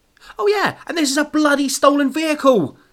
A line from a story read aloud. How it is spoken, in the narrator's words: Chip yelled